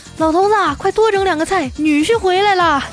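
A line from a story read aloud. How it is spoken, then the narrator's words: Shouting toward another room. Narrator (Chinese): 我妈冲着厨房中的老爸喊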